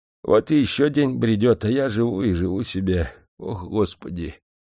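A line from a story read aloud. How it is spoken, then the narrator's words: Heavy sigh. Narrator (Russian): Тяжело вздохнул он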